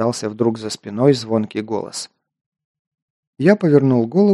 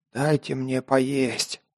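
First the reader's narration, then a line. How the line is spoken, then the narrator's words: Hoarse croak. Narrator (Russian): прохрипел я, не узнав собственного голоса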